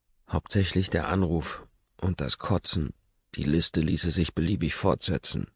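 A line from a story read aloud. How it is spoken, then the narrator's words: Murmured. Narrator (German): murmelt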